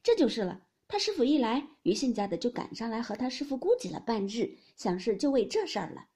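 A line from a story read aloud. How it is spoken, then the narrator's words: Laughing. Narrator (Chinese): 惜春笑道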